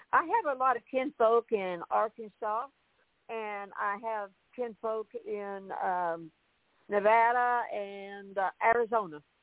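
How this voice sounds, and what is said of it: Charming Southern American accent. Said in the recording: “you've got that charming accent that makes me think that you possibly were from a little bit further south in the country”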